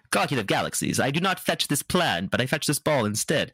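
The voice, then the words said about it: Put-on character accent. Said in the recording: “I'm really sorry for the accent,”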